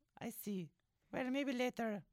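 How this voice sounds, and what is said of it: Put-on Kenora girl accent. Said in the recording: “It's my accent, isn't it? You love the accent. ... I love a good Kenora girl accent. ... this is very Kenora. I've been listening to them on the radio, and this is what they sound like.”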